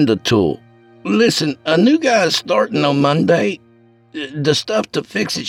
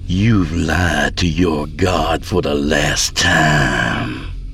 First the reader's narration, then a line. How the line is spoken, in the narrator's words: she snarled